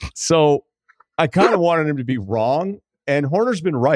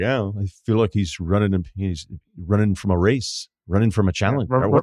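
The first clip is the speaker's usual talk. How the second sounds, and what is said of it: Put-on accent imitating Christian Horner. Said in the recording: “I don't even know what accent I was doing there. I apologize to everyone internationally.”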